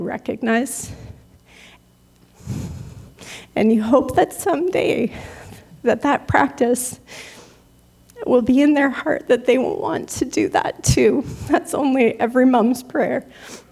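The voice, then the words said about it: Choked up, emotional voice. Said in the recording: “all choked up”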